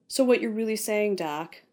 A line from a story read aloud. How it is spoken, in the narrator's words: Robbie sighed